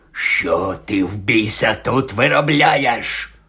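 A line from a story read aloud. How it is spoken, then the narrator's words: Hoarse, through clenched teeth. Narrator (Ukrainian): прохрипів, стипивши зуби дядько Вернон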